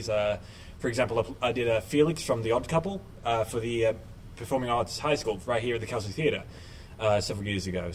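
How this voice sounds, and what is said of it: Mixed British-Australian accent. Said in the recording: “you don't sound like you're from around here ... my accent ... a kind of mixed accent, mainly British-Australian”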